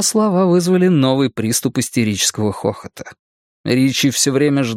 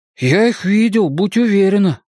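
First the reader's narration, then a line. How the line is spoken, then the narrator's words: Breathed out. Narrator (Russian): выдохнул Бен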